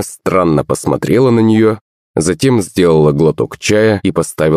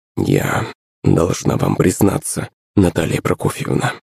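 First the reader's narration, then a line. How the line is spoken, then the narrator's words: Quiet mumble. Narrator (Russian): тихо пробормотала Лариса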